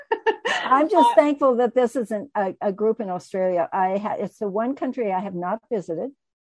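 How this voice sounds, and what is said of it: American Colorado accent. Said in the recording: “she's not an Aussie, folks. She's from Colorado in the USA ... she's got a gorgeous accent”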